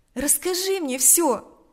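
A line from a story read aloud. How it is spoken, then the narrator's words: Compassionate exclamation. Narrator (Russian): воскликнула она в порыве сострадания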